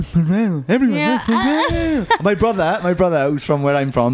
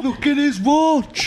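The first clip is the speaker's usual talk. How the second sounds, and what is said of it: Thick Welsh accent impression. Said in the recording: “he's thicker accent because he's thicker”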